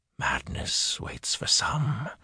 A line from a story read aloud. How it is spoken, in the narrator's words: Luthien whispered